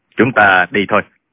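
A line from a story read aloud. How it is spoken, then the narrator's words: Calm, cold voice. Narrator (Vietnamese): Tạ Tốn thản nhiên lạnh lùng nói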